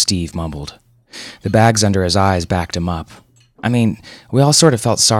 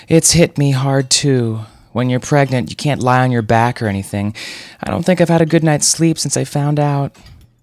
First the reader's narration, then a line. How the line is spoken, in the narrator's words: Jenna let out a theatrical sigh that would have put Scarlett O'Hara to shame and said